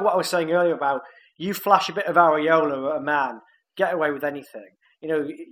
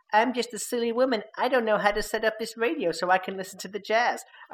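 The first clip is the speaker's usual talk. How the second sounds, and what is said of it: Put-on Queens American woman's accent. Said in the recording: “Absolutely nailed what her accent would have been there as well. ... I don't know why I made her from Queens, knowing that she was in no way from America. But I have a limited accent range ... I made her as white as possible.”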